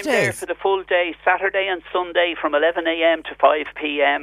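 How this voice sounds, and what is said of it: Dublin Irish accent. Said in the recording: “I can tell by your accent, you're a born and bred Dub.”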